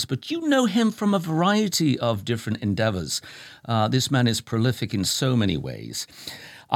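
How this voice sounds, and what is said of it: British accent. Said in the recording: “a voice, an accent from somebody across the pond like myself, moreover, actually from the same county ... we've got two Brits here”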